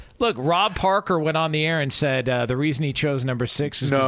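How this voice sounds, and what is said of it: Usual voice. Nothing is said of it.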